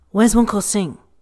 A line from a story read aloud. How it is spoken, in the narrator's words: barks in whatever language he likes